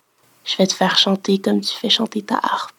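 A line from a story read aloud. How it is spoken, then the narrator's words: Close whisper. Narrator (French): susurre-t-il contre la nuque pâle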